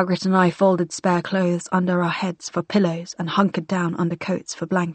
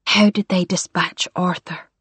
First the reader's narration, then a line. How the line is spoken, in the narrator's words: Margaret whispered